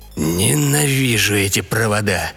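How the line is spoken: Grumbling mutter. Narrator (Russian): бурчал главный инженер

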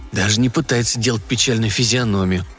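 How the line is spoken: Whispered. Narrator (Russian): прошептал кто-то из знакомых

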